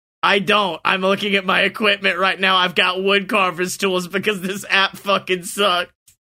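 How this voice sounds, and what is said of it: Usual voice. Nothing is said of it.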